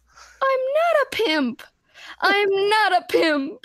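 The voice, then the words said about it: High-pitched imitated voice. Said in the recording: “you got to say it in the high voice ... I can't do it”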